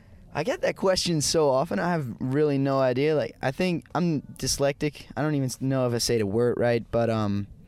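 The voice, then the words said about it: Non-native speaker with good English accent. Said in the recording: “you have a pretty good accent for your English.”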